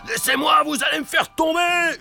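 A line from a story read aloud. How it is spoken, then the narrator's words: Yelling. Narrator (French): hurle Joe l'Exterminateur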